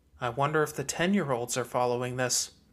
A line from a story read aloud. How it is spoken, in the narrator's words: Lucy murmured